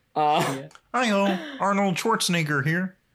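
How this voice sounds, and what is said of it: Bad Kermit the Frog impression. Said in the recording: “really bad Kermit impression ... Yeah, see? Like that.”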